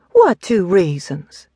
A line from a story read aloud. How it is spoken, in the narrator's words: Payne sighed again